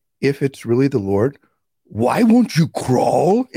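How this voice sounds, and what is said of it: Energetic imitated Nigerian accent. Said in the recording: “in his Nigerian accent, with all this energy”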